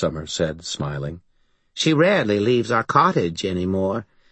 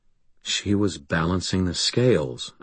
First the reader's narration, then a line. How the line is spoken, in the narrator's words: I said quietly